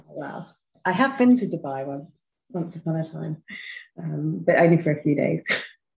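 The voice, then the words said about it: English accent. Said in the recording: “I am from England, just outside London, which you may hear from my accent.”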